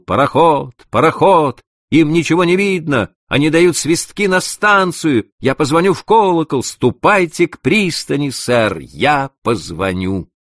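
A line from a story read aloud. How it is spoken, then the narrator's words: Shouting while running. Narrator (Russian): Маккола, крикнув на бегу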